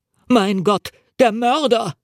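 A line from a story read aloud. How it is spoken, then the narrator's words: Scream. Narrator (German): schrie er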